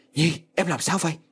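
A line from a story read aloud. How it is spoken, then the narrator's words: Alarmed loud shout. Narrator (Vietnamese): Quân miệng hét lớn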